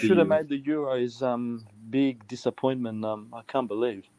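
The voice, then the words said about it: Mixed Czech, Australian and Greek accent. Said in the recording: “You have a bit of an interesting accent. ... a bit of Australian and Greek accent as well ... a bit of a mix of everything”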